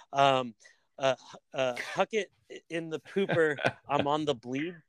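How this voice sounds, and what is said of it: Put-on female Australian accent. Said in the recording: “when you hear a fucking Aussie chick say ... that fucking Australian accent”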